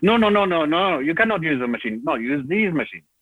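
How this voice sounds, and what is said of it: Put-on foreign accent. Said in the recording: “Sorry for accent.”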